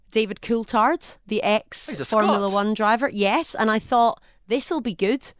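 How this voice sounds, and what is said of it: Scottish accent. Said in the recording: “pull the Scottish card ... my accent”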